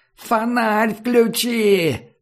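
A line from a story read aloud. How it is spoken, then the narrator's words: Yelled. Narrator (Russian): заорал Комар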